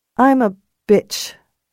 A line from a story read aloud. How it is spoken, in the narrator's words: she said miserably